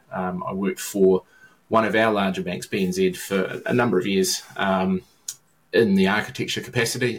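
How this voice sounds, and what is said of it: New Zealand accent. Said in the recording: “my accent's even further south than your accent ... I'm a New Zealand-based”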